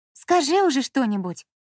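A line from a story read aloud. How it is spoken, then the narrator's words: Irritated demand. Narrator (Russian): раздраженно потребовала Лина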